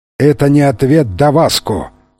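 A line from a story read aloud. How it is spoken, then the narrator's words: Menacing cry. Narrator (Russian): грозно вскричал Фрэнсис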